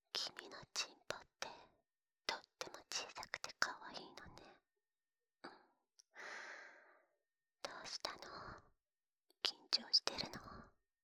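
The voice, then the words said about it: Whispering. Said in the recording (Japanese): “こうやってささやけばいいの？”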